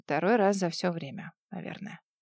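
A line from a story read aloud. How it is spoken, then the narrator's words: Barely audible, muffled. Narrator (Russian): уткнувшись носом в его бицепс, едва слышно выговорила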